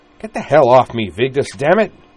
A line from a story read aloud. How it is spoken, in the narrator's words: he snapped